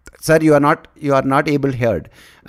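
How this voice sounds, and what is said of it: Mimics Hindi-accented English. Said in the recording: “they speak English like they speak Hindi ... my impersonation, which was bang on, by the way, of this toll operator”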